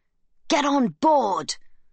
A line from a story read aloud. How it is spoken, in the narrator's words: the guards yell, over and over